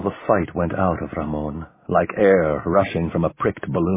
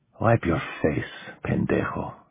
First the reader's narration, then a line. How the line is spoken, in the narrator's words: he whispered